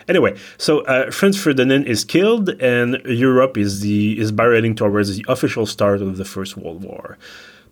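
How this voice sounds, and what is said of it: Non-native English accent. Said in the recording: “My accent is already quite bad”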